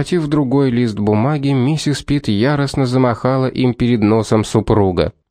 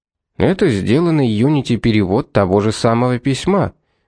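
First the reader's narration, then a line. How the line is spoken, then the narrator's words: Reasoned tone. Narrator (Russian): рассудительным тоном проговорил суперинтендант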